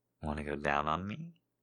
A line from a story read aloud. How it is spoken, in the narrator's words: whispered in his ear